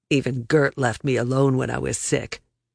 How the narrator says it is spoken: he snarled

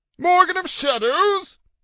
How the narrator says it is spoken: Jeffrey squeaked

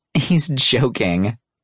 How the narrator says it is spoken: Maria giggled

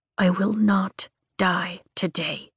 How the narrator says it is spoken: I whisper to myself

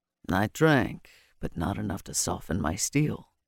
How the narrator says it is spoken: he murmured

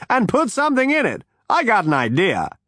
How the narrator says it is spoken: snapped Judiciary Pag

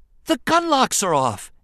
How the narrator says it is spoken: Anakin exclaimed with a joyful shout

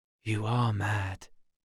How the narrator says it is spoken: he whispered

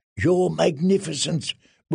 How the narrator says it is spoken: whispered Resnek Mo Resnek in her ear

